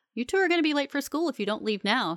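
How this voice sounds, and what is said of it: Stern scolding mom voice. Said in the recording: “in her sternest mom voice.”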